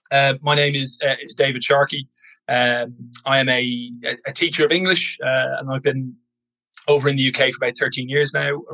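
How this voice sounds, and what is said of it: Fading Irish accent. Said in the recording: “originally from Ireland, which I'm told that my accent is dwindling every 6 months or so”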